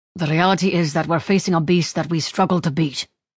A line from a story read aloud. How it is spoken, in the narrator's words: the King snapped